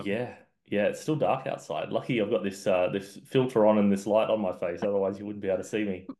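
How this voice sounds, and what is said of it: Australian accent. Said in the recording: “It's 6 a.m. over in Perth, Western Australia ... I apologize if my accent makes me hard to understand.”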